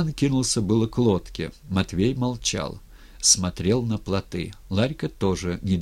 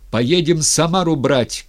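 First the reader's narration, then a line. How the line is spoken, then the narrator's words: Shouting. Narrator (Russian): крикнул Степан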